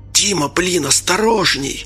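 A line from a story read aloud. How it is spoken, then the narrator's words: Hissing. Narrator (Russian): прошипел Анатолий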